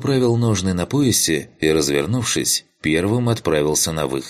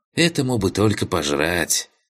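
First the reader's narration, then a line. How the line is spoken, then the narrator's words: Smirking snort. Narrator (Russian): хмыкнула Масяня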